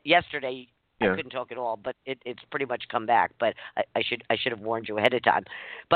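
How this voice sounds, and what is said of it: Slightly hoarse voice. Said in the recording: “my voice is I'm a little hoarse.”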